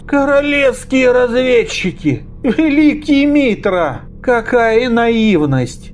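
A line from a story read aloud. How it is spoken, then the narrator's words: Sad trembling voice after sigh. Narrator (Russian): тяжело вздохнув, он печально, дрожащим голосом произнес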